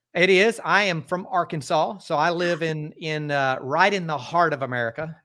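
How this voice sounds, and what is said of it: Southern American accent. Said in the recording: “where is your accent? I want to guess the South.”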